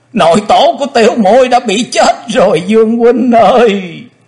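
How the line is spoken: Wailing through tears. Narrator (Vietnamese): Quỳnh Dao đang khóc, thê thảm gào to

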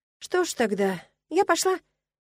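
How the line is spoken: Uncertain, strange-feeling. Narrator (Russian): неуверенно произнесла я, чувствуя себя как-то странно

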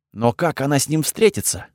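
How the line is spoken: Whisper. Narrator (Russian): прошептал я

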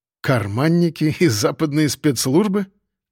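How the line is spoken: Incredulous snort. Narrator (Russian): недоверчиво хмыкнул

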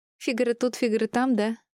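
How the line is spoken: Joking. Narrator (Russian): пошутила Мира

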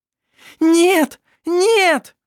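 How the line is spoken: Screamed. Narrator (Russian): Закричала Шира

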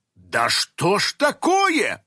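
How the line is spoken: Exclaimed. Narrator (Russian): воскликнула Кристина

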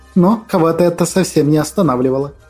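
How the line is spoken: Snort. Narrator (Russian): фыркнула мамашка

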